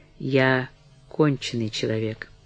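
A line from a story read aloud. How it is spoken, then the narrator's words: Quiet addition. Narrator (Russian): она прибавила тихо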